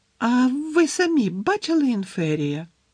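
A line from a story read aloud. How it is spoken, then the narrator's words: Squeaky question. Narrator (Ukrainian): писклявим голосом запитала Парваті Патіл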